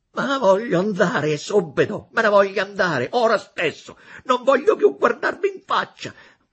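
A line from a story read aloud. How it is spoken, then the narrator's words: Indignant shouting. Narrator (Italian): tutto acceso di sdegno, gridando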